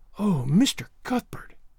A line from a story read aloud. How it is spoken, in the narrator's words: she whispered